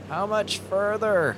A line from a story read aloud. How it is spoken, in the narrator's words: He yelled